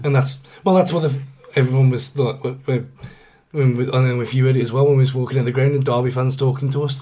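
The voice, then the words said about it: Hoarse, worn-out voice. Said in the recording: “that's where my voice has gone, because it was just, there was nothing else to do. It was just constant singing.”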